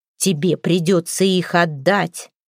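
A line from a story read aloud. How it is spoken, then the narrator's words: Stern. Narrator (Russian): строго сказала Хёрдис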